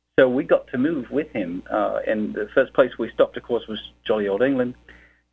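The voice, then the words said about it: Accent mixing British and American. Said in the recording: “bizarre accent that occasionally slips to American and back to British”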